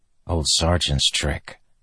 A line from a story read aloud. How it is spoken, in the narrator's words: Kaladin whispered